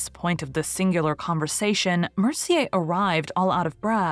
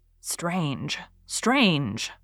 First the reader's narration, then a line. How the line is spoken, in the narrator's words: muttered Gabriel, who could not help shivering